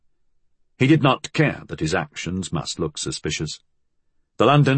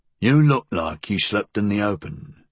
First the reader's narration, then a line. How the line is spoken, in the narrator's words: Flood grunted